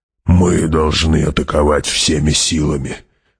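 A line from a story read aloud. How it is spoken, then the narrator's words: Hoarse speech. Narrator (Russian): хрипло сказал барон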